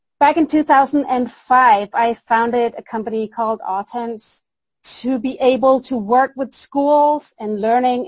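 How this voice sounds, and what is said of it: Danish accent in English. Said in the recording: “you might detect a strange little accent ... I am from Denmark”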